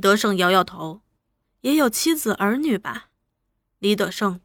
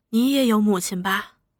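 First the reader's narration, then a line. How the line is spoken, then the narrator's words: Sighing mother. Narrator (Chinese): 一个有了孩子的母亲，说着，叹了口气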